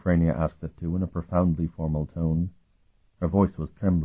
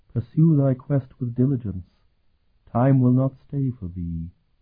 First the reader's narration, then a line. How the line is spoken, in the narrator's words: the ghost of Parasim said, his voice hollow and emotionless